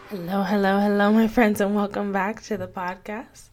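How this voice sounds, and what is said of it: Hoarse, slightly congested voice. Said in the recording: “I have a frog in my throat. ... itchy throat, little bit of sprinkle of in and out congestion”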